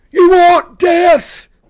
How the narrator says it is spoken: Clarice screamed at the Dracon

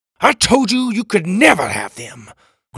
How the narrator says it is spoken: Graham roared

